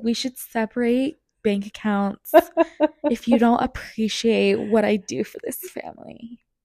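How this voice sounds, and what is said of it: Imitates another person's voice. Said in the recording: “That's mean of me to impersonate him”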